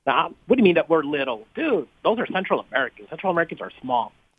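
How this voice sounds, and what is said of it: Slight Mexican American accent. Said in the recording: “You have a little bit of a Mexican cadence to the pentameter of your speech. So, yeah, you do sound a little Mexican”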